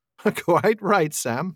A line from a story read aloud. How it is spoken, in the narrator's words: laughed Bilbo